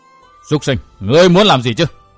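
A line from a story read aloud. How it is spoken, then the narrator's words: Powerful commanding shout. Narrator (Vietnamese): Tiếng quát có oai lực phi thường, chấn động tâm thần Kim Hậu Tinh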